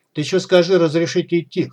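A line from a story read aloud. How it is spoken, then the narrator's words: Chuckling. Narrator (Russian): хохотнул второй, который не представился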